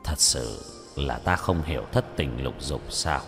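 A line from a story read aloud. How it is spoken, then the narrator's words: Muttering, frowning. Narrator (Vietnamese): Lục Áp Đạo Quân nhíu mày, lẩm bẩm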